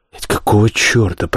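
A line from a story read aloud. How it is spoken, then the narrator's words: Muttering. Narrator (Russian): пробормотал я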